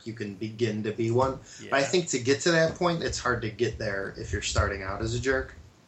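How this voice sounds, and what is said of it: Deep Chicago accent. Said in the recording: “the deep Chicago, with the deep Chi-Town accent ... this accent ... I sound like a blues brother”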